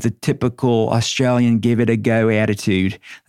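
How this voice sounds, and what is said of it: Put-on Australian accent. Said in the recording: “That's my Aussie accent. How did I do?”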